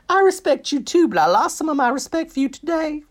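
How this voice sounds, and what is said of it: Admittedly awful impression of Heidi. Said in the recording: “That is an awful impression.”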